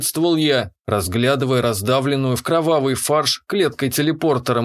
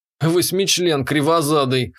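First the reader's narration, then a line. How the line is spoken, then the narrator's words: Scoffing snort. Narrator (Russian): хмыкнул я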